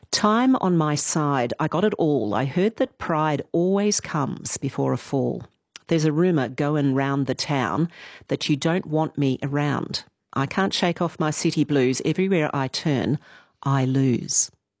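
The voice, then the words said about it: Serious, solemn reading voice. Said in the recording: “Serious voice.”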